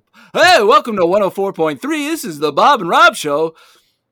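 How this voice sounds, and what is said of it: Put-on morning radio DJ voice. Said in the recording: “Midwest morning radio show ... How's my radio voice? ... Do you think I got the voice?”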